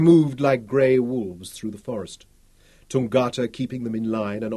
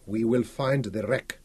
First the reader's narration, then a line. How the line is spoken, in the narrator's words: Tungata said